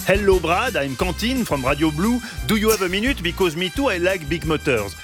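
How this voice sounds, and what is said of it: French accent speaking English. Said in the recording (French): “Parmi les accents souvent valorisés à l'international, l'accent français. Justement, ... avait tout misé là-dessus”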